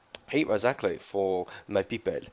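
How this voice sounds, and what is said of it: Put-on Israeli accent. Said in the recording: “It's an Israeli accent. ... I thought you were doing a French accent.”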